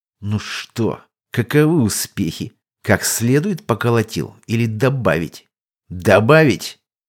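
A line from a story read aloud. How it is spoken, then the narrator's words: Nervous hiss through grinding teeth. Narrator (Russian): Дирт улыбнулся нервно с зубовным скрежетом и прошипел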